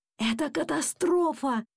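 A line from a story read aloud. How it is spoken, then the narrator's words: Confused whisper. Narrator (Russian): растерянно шептал папа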